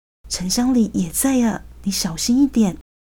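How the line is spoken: Low irritated warning. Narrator (Chinese): 郑仁伟压低声音，没好气的提醒他

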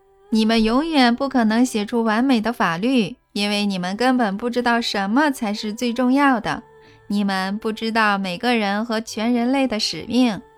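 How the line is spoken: Shouting after laughing. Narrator (Chinese): 他笑完后，对着所有坐着的画面大喊

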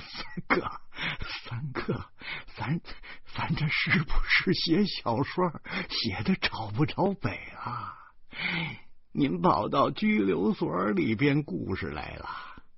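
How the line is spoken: Contemptuous chuckling. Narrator (Chinese): 方志轻蔑的，他呵呵的笑起来

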